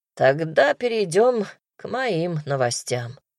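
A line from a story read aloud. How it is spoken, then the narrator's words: Sighing werewolf. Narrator (Russian): вздохнул оборотень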